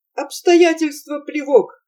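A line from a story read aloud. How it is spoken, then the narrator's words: Shouted. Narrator (Russian): крикнул Прохор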